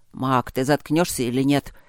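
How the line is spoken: Grumbled. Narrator (Russian): пробурчал Гроул

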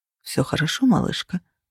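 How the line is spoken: Mumbling. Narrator (Russian): бормотал

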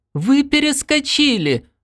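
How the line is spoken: Thin-voiced shout over noise. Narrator (Russian): тонким голосом закричал Бердо сквозь шум

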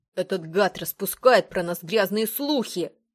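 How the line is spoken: Growled. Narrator (Russian): прорычал Патрик

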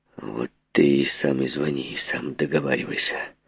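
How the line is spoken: Muttered. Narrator (Russian): И он пробормотал только

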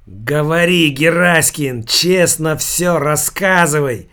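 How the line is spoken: Hoarse wheeze. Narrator (Russian): хрипел Калин

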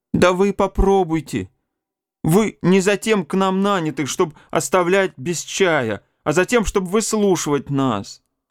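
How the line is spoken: Tearful protest. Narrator (Russian): протестует Степан сквозь слезы

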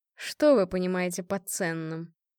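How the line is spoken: Sarcastic question. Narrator (Russian): спросил язвительно

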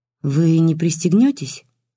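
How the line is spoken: Timid question. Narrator (Russian): робко спросила Лиля

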